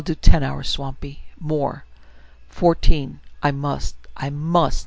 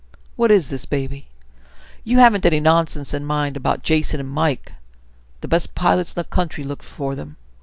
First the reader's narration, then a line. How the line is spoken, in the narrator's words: was suddenly sharply suspicious and said